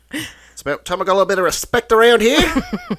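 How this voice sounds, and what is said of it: Comedic Murray character voice. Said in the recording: “Do you still want me to do my voice? ... Do you have a voice request? ... You can ask me as Murray. I love Murray.”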